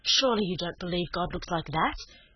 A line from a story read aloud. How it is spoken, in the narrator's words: she said impatiently